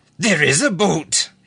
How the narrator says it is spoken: he yelled

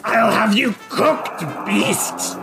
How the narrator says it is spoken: snarls and says

